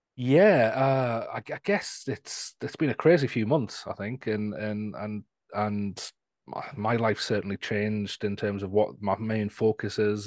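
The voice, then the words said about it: Northern English Newcastle accent. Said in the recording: “I'm from England, so you can probably guess my accent. And if you're thinking it doesn't sound like a traditional English accent, that's from because I'm from the north of England, near Scotland, in a place called Newcastle.”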